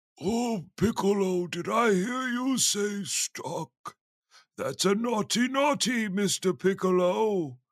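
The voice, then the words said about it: Old man character voice. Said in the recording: “old man voice”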